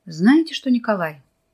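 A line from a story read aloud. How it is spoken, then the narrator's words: Calm. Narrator (Russian): спокойно заговорил профессор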